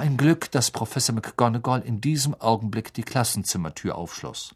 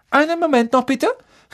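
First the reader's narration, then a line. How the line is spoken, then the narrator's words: Calling out urgently. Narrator (German): rief sie, als alle aufstehen wollten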